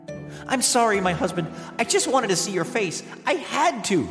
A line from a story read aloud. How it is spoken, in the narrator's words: Psyche cried